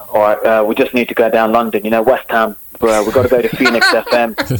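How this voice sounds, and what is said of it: Put-on Cockney accent. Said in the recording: “start with Cockney. Give us a Cockney.”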